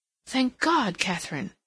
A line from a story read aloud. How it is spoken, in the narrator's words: exclaimed